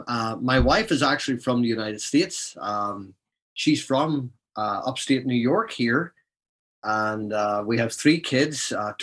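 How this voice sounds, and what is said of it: Ulster Scots Irish accent. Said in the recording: “I was born in Belfast in Northern Ireland, so I'm an Ulster Scot ... So this is a true Scots Irish accent.”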